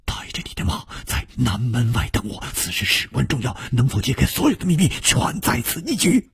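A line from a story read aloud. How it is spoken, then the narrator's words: Hushed whisper. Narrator (Chinese): 楚留香压低了语声，悄悄地说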